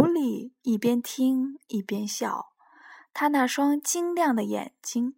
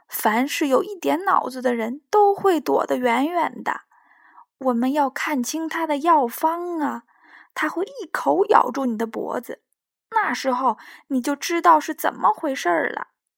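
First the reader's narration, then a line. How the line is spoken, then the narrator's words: Sighing. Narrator (Chinese): 猫头鹰叹息着说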